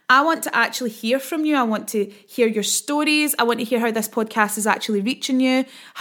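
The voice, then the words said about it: Fast-talking Scottish accent. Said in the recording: “I talk quite quickly and I'm also Scottish, so it's quite difficult to understand me”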